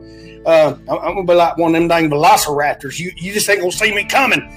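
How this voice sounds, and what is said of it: Rural Southern American redneck accent. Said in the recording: “my accent and you think I'm an old stupid redneck”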